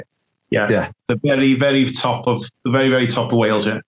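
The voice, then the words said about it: Liverpool accent. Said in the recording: “I can tell with accent you're from Liverpool”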